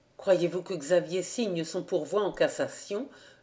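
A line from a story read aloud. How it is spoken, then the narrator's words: Plain. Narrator (French): demanda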